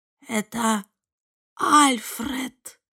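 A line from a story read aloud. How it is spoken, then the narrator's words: Whisper. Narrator (Russian): прошептала Эвелин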